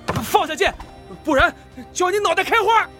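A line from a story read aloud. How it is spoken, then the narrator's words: Trembling shout. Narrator (Chinese): 还在发抖的警卫喊道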